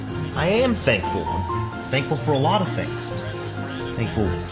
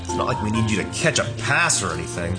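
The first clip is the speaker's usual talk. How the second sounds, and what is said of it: Sarcastic tone. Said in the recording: “I was just being sarcastic”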